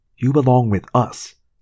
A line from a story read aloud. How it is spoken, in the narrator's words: Rachel said firmly